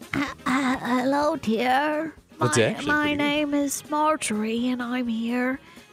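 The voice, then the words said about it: English old lady voice. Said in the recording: “your old lady voice ... an English older person”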